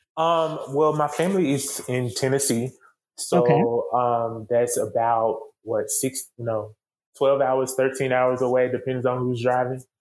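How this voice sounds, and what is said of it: Non-Baltimore regional accent. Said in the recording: “we hear that accent. not from Baltimore.”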